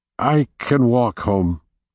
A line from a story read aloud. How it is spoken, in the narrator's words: Carter said, his voice shaky